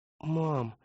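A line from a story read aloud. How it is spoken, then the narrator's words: Sleepy call. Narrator (Russian): сонно окликнул он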